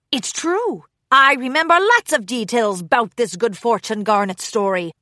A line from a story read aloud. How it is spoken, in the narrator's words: Brumby barked